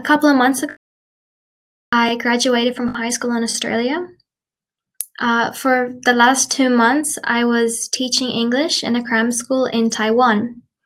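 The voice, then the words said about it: Mixed Irish-Australian accent. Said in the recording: “I was born in Ireland, but when I was 10 years old, I moved to Australia ... my accent is kind of neutral. It's not completely Australian, but also not completely Irish.”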